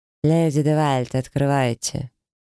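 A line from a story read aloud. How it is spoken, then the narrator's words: Cold command. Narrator (Russian): холодно скомандовал дракон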